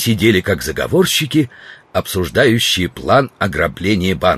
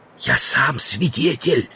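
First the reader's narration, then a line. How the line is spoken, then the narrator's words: Whisper. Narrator (Russian): сказал Стендаль, тоже переходя на шепот, наклоняясь через стол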